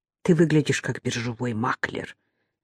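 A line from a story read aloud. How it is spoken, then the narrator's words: Mutter. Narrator (Russian): пробормотала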